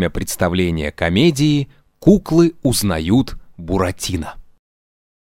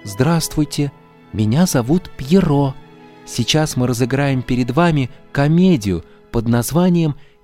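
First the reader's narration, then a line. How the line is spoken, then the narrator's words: Sad. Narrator (Russian): сказал грустно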